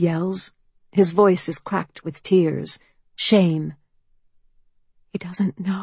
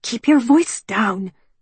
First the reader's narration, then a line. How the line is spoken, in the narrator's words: she hisses